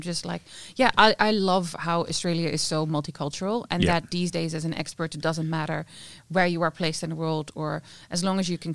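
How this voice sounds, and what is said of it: Noticeable foreign accent. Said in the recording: “Your accent gives you more authority. ... where is that accent from?”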